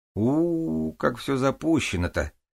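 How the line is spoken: Drawling. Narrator (Russian): протянула супруга

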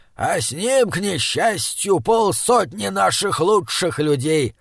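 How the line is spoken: Old man growling. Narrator (Russian): рыкнул у камина старый Краубан

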